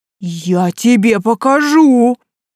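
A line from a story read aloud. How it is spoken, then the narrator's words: Roared. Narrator (Russian): взревел Лерхен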